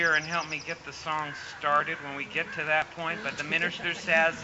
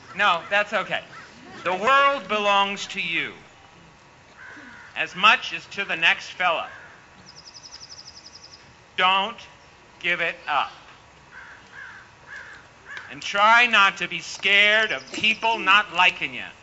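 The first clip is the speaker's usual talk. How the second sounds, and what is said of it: Put-on Maine accent. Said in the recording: “I'm trying to do my Maine accent because he had a great Maine accent”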